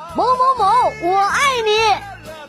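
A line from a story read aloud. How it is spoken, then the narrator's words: Loud shout. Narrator (Chinese): 有一个男生在宿舍楼下面高喊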